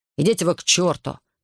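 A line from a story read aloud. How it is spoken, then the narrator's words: Angry. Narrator (Russian): сердито сказал он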